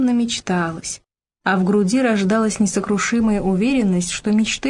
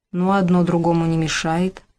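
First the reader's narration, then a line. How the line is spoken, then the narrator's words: Sighing. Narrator (Russian): вздохнул Степан Егорович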